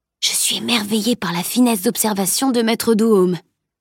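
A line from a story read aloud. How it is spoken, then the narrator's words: Murmured. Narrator (French): murmura-t-il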